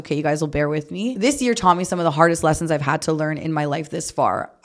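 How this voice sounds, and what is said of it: Slightly off voice from a cold. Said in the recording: “I'm getting over a cold, so my voice is a bit off”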